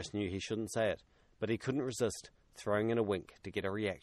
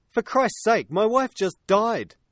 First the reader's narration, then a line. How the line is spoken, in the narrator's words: David snapped back, taking the comment with an appropriate amount of offence